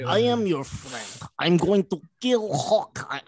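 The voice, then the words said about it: Exaggerated put-on Russian accent. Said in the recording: “she stresses the Russian ... she stresses that accent hard”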